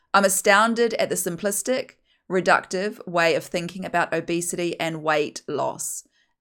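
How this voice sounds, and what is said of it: Broad New Zealand accent. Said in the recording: “my very broad Kiwi accent.”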